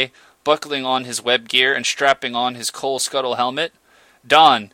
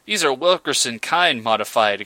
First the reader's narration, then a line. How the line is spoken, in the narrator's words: exclaimed Nell